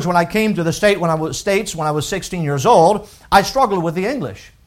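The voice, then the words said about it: French accent in English. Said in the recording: “I grew up in the country of France, and many of you know that was my first language... your accent is a little different”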